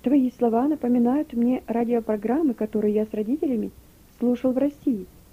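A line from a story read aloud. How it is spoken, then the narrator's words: Plain. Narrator (Russian): наконец сказал он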